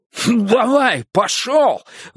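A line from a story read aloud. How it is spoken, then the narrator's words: Sudden yell. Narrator (Russian): вдруг заорал Одум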